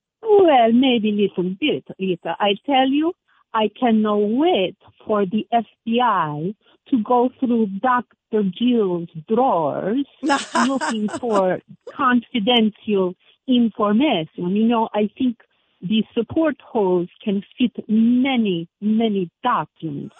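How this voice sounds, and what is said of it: Put-on Slovenian accent. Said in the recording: “it sounds like you got a Slovenian accent there.”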